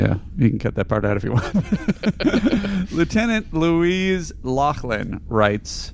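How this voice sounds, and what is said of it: Usual voice. Nothing is said of it.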